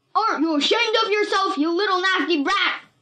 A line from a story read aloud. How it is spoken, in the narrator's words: he screamed